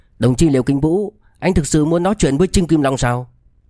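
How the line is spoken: Dark, angry. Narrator (Vietnamese): Trịnh Ông Dương sắc mặt cũng âm trầm, tức giận nói

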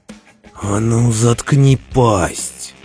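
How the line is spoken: Growling. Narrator (Russian): зарычал МакГрисл

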